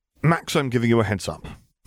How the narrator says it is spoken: he said quickly

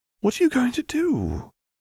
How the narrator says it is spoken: Hermione squeaked, lowering her voice, and asked

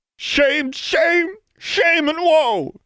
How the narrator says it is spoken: cried Goody Pruitt

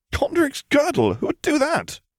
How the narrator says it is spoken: Draco exclaimed, laughing

